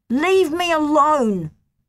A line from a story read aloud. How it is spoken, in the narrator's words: I yelled at the teacher